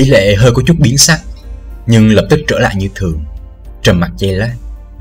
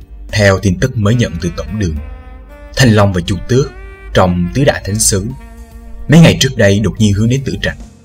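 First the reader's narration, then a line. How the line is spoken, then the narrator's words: Lowered voice. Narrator (Vietnamese): Yến Hồi hạ giọng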